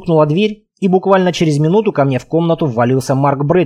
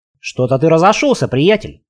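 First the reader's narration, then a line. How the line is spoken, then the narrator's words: Smirking. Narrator (Russian): хмыкнул Марк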